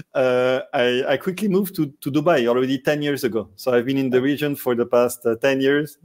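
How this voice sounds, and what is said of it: French accent from southern France. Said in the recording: “My French accent or from the south of France? ... Both.”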